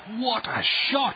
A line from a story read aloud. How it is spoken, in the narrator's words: shouted Coach Wilson